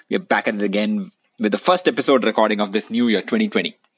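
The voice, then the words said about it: Indian English accent. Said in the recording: “Your favorite NBA podcast in an Indian accent.”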